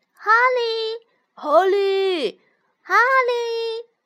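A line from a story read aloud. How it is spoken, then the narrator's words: Repeated calling. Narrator (Chinese): 有人在叫他的名字，一声接着一声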